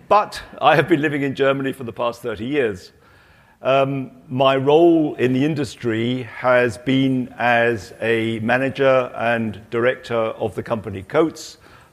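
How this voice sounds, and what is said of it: British accent. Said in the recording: “I've got a British accent, so I'm actually British”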